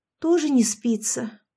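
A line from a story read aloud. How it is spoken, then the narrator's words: Sad question. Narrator (Russian): грустно спросила она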